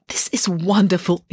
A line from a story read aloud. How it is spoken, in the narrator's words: exclaimed Loretta, enjoying every bounce and lurch of the decrepit vehicle